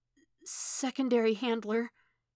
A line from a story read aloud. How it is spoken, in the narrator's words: he breathed in that 11-year-old voice